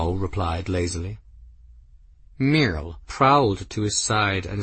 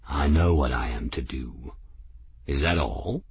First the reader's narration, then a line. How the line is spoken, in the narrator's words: her tone became more serious